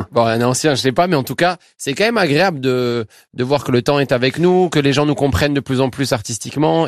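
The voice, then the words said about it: Toulouse French accent. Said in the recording (French): “Vous avez toujours l'accent toulousain.”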